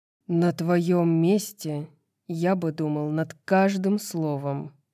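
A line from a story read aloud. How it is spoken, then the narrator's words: Growl. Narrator (Russian): прорычал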